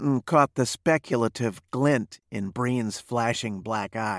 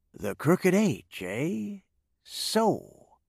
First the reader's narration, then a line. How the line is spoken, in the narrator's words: Mark Breen drawled